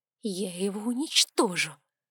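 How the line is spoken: Forced out. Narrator (Russian): выдавила

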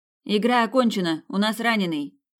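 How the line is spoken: Shouted. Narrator (Russian): крикнула Сабина

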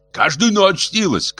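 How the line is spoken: Shouting. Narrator (Russian): кричал кривой капло

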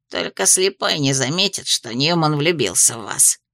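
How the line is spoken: Wry snort. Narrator (Russian): хмыкнул Гремлин

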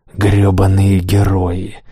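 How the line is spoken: Roaring. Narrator (Russian): ревет Оскар

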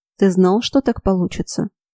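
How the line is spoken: Quiet question. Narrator (Russian): негромко спросила я у Моргана

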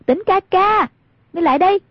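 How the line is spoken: Loud call. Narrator (Vietnamese): Hoàng Dung cao giọng gọi

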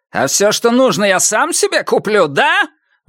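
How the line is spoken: Shouted. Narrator (Russian): выкрикнул Иниго

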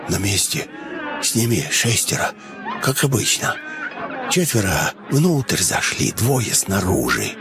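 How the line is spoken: Elderly man speaking quietly. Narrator (Russian): пожилой топтун заговорил негромко

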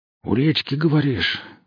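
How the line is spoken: Breathed out. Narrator (Russian): выдохнул лесничий

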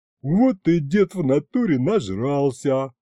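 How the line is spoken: Chuckling. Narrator (Russian): хохотнул Аристофан

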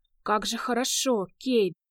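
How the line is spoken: Hoarse breathy exhale. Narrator (Russian): хрипло выдохнула Ло

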